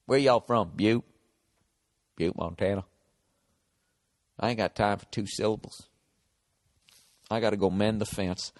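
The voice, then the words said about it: Put-on southern drawl. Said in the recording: “he has a southern accent”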